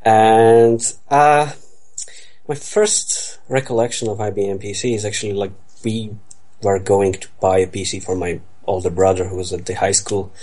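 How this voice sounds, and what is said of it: Eastern European accent. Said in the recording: “As you can hear from my lovely accent, I come from the Eastern Europe.”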